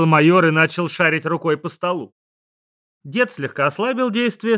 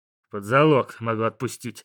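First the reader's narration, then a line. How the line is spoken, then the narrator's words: Grumbling major. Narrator (Russian): буркнул майор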